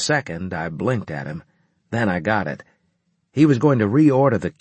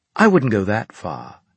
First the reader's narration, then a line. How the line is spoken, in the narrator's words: he said in a condescending tone